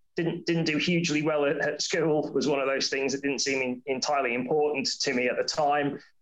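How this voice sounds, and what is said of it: Faint semi-Scouse accent. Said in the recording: “I've tried to lose my sort of semi-Scouse accent that I've had, but then I've lived in the south for a long time”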